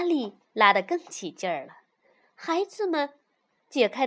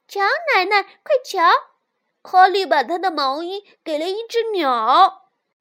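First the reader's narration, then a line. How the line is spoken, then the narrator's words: Children calling out. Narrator (Chinese): 孩子们叫道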